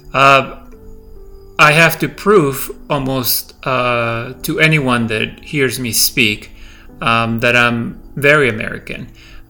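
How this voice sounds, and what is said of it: Slight non-native English accent. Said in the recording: “I have worked on my accent for years and trying to get rid of it, but English, it is my second language... I think I will have an accent when I speak... they will know that English is my second language because I have a slight accent.”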